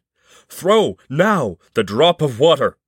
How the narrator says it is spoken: the horse shouted

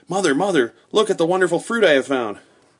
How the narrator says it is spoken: His mouth was crammed full of something as he called out

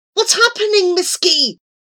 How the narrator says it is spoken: he cried desperately

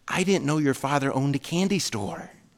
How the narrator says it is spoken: the boy whispered back

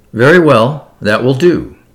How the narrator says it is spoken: said the examining magistrate sharply

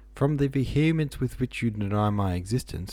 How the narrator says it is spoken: laughed the gentleman

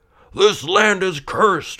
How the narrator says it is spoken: man cried out

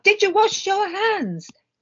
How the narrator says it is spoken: Mum called out

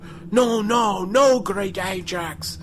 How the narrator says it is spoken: Some men in the audience yell out

